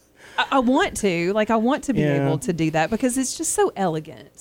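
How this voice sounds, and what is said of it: Strong Southern US accent. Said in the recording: “I do have a very Southern accent”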